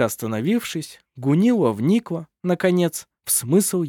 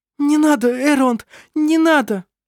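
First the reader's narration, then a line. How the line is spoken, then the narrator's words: Helpless sobbing. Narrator (Russian): Беспомощно всхлипывала она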